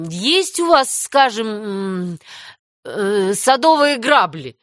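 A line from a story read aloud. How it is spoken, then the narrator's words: Stammering question. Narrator (Russian): запинаясь, спросил Мэтью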